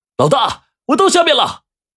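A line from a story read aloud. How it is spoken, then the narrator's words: Shouting from below. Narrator (Chinese): 顾文涛的喊声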